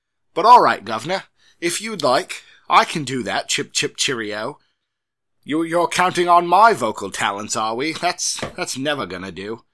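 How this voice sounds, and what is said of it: Put-on English accent. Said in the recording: “read this in an English accent”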